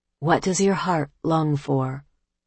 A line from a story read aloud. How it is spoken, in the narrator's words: one person gently asks